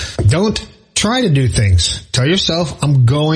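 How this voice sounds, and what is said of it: Usual voice. Nothing is said of it.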